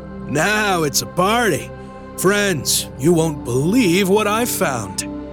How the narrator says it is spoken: loudly declaring

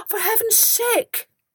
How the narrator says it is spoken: begged

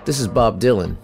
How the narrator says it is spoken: Johnston said

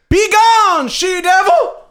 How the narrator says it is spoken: Perhaps I shouldn't have yelled

